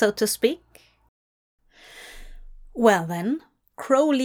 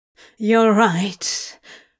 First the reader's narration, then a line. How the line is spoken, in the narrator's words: Crowley wheezed, unable to quite control his own breathing